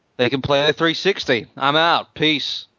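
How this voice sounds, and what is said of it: Imitates another person's voice. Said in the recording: “my Don Matrick impression”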